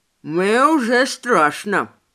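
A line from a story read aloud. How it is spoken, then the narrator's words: Indistinct mumble, mouth full. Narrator (Russian): не слишком внятно пробормотал Мэй, доедая мой завтрак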